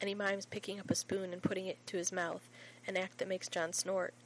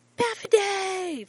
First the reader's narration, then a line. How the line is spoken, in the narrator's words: shrieks